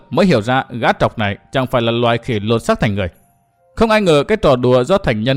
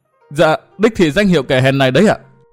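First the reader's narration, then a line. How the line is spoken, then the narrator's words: Whimpering. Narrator (Vietnamese): Gã trọc mếu máo thốt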